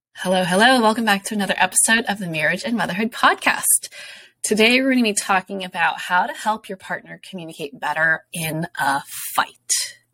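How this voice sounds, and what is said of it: Voice sounds a little funny. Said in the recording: “my voice sounds a little funny, it's because I'm actually recovering from the flu ... this like lingering cough”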